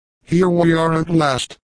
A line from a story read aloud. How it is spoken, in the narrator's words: shouted the captain